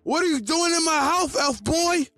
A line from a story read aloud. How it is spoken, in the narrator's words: You yell